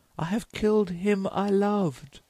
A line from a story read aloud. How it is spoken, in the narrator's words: Far afield a woman cried